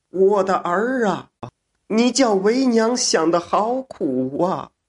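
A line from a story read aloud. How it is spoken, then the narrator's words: Loud crying. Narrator (Chinese): 小姐大声哭道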